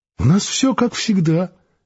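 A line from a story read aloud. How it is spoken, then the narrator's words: Cheerful explaining. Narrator (Russian): весело объяснял древний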